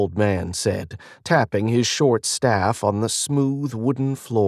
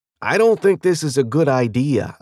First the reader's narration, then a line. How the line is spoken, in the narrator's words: said